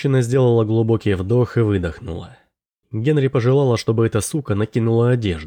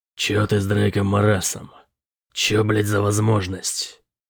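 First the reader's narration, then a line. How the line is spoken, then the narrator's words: Irritated growl. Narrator (Russian): Он раздраженно зарычал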